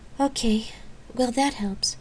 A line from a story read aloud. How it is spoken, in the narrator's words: she murmured to Micah